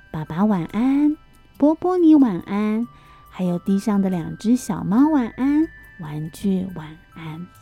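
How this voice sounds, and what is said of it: Soft, quiet hushed voice. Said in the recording (Chinese): “我们现在呢讲话要小声一点点 ... 轻轻的说”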